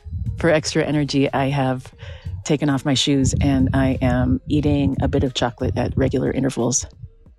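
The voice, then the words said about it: Slightly out of breath. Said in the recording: “little out of breath”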